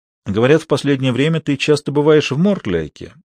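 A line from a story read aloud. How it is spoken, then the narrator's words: Casual tone. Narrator (Russian): министр королевы небрежным тоном произнес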